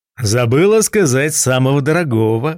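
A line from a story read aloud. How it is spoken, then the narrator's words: Laughing. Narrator (Russian): рассмеялся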